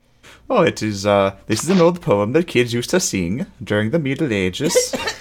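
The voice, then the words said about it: Put-on medieval-sounding accent. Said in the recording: “I love your Middle Age accent.”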